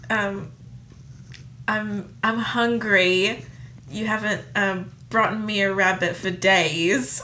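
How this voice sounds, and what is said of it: Put-on accent imitating another person. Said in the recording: “I'm going to do the accent, okay? This is my impression. ... That was my Rachel Weisz impersonation.”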